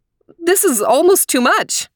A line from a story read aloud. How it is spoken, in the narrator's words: exclaimed Mommy